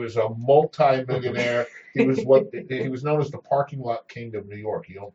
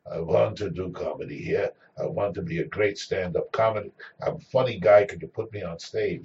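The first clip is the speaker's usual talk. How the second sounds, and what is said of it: Thick European or Israeli accent. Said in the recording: “He had a thick European or Israeli accent.”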